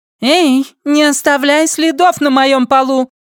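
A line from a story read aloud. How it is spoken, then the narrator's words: Shout. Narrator (Russian): крикнула она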